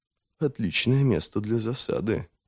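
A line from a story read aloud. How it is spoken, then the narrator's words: Muttered. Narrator (Russian): пробормотал Девятипалый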